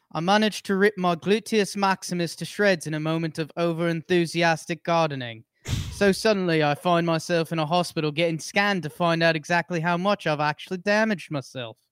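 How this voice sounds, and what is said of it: Put-on British or Scottish accent. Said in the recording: “read the uh, "I managed" line in a British accent? ... that's Scottish. ... Yeah. That's really good.”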